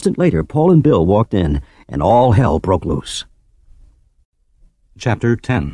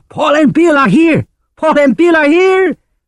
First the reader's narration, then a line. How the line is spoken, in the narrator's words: yelling